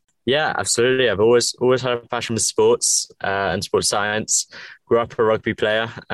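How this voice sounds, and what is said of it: English accent. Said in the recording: “If you can tell by my accent, I'm from England.”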